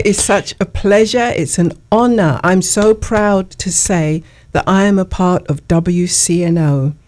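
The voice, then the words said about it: Noticeable non-local accent. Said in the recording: “you bring a fresh, not only accent”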